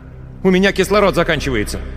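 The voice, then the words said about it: Shouting. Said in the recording (Russian): “заорал в микрофон ... не кричи”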